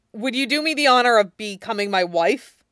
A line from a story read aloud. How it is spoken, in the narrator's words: Jiang Cheng hesitated, then jumped right in, blurting out